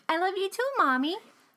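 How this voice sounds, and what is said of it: Childlike voice. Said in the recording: “In that kind of voice.”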